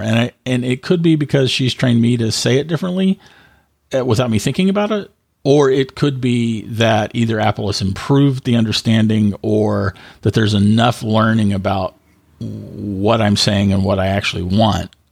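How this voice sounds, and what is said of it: Australian accent, slightly cockney. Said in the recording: “I have an Australian accent, and apparently it's gone a little bit cockney ... it's my Australian accent.”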